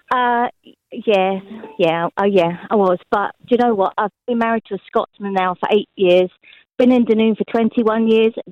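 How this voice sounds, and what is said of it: English accent. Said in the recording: “there's the English accent there”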